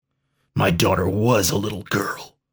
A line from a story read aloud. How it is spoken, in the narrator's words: growled Dax, straining against his bonds